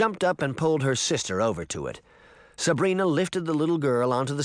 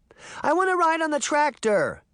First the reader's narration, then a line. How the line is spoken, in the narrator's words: Daphne cried